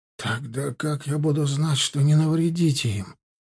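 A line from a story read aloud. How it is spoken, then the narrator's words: Whispered. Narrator (Russian): прошептал Нуцкий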